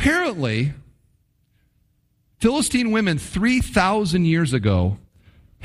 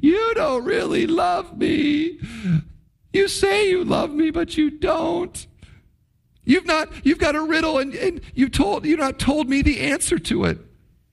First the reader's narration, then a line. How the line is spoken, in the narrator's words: she sobs to Samson